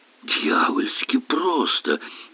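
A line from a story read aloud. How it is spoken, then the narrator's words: Perplexed mutter. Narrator (Russian): с недоумением пробормотал он, словно не понимая, как подобное наблюдение могло от него ускользнуть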